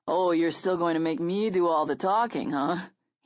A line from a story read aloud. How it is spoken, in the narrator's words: he noted, with a chuckle